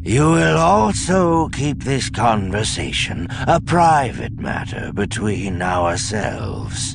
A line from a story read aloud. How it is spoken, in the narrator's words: Sabaoth said lazily